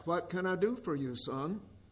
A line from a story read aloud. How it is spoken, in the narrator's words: She softly asked